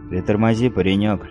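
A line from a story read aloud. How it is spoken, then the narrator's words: Lazy soldier's drawl. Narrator (Russian): лениво произнес солдат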